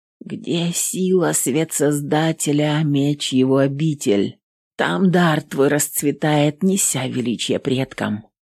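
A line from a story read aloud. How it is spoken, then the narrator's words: Whisper. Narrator (Russian): Прошептала Эвелин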